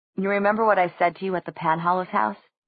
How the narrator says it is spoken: he asked

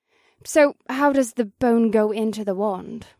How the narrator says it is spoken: Marina asked in a perplexed voice

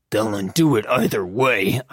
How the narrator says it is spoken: I growled

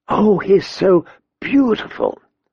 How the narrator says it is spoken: he heard Sansa's fervent whisper

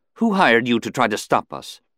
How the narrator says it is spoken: she couldn't keep from blurting

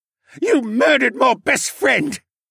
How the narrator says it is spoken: he sobbed in the same magic-enhanced voice

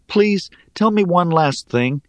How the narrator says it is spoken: I begged

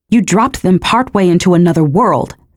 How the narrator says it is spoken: snapped the female godling

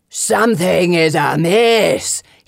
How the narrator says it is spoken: he howls

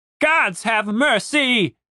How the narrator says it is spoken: shouted Captain Reynolds

